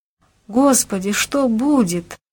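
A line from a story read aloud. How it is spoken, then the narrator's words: Moaning. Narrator (Russian): застонала Нина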